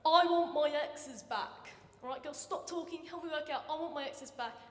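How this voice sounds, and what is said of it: Thick English accent impression. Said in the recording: “he's got this thick English accent.”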